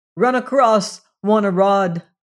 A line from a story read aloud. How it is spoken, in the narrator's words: cried Leonard in English